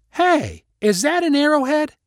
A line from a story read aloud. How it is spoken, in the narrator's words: called out